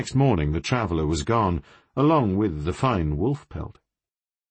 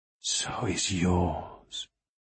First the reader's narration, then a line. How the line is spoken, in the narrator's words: whispered